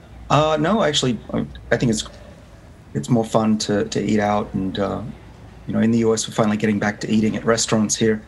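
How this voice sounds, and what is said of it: Australian accent. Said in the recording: “I don't know if you can tell from my accent that I grew up in Sydney ... I'm still very much Australian”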